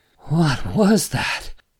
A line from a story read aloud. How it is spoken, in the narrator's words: Joe asked, still panting